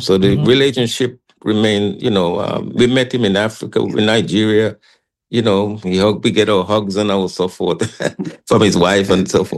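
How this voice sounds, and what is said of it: Caribbean St. Kitts accent. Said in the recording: “Kitishan roots? ... His mother is from St. Kitts. ... when he heard my accent as a child”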